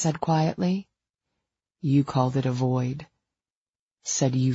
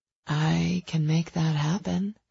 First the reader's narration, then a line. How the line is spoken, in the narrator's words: I purred, wanting him to be happy and playful again